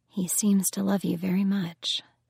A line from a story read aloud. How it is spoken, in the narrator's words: Persephone said quietly